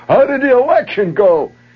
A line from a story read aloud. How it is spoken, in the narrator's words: Hollering out